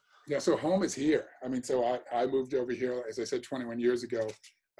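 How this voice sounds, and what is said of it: Mixed British and American accent. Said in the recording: “your accent that you're both British and American”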